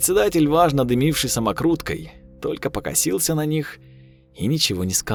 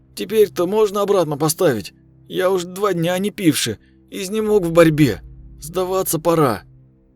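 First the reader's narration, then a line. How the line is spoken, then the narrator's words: Hesitant voice. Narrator (Russian): поддержал кузнеца друг с нерешительным голосом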